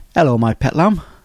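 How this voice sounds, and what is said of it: Poor put-on Cornish accent. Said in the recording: “Unless you're from Cornwall ... That wasn't a very good impression.”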